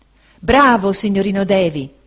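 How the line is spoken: Ecstatic exclamation. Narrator (Italian): esclamò Cam, estasiato

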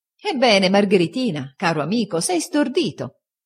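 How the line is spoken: Laughing exclamation. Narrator (Italian): esclamò Steerforth ridendo

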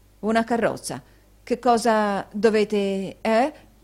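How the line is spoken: Stammering. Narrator (Italian): balbettò Newman

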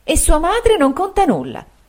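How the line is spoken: Woman's exclamation. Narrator (Italian): esclamò la signora Markleham

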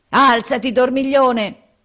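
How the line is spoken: Roaring. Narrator (Italian): ruggì Harris

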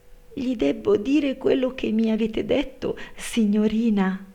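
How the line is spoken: Frightened maid stammering. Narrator (Italian): balbettò la servetta spaventata

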